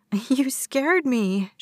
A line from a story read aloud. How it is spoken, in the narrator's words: she said with a giggle